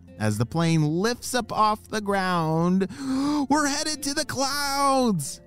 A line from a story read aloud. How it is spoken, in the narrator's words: shouted Harley